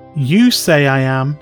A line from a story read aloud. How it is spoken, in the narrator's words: Jesus said